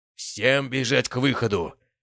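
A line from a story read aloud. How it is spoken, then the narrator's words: Roared. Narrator (Russian): проревел я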